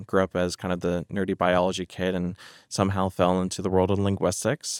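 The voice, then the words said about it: American accent. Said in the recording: “My accent does throw it off. I'm originally American, but moved over to the UK 9 years ago.”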